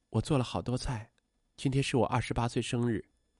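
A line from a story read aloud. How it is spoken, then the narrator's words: Murmuring. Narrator (Chinese): 周冉喃喃道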